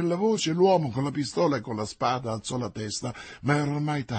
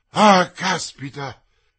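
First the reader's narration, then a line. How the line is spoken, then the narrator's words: Exclaimed. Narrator (Italian): esclamò D'Artagnan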